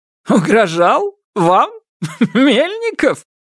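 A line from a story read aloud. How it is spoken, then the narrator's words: Laugh cut short. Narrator (Russian): расхохотался было, но осекся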